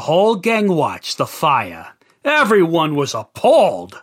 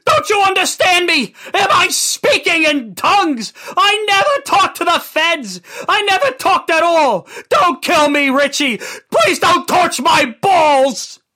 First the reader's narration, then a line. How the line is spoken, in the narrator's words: Christopher screamed at the top of his lungs